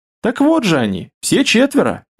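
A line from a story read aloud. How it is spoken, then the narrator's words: Laughing. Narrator (Russian): рассмеялся Кирилл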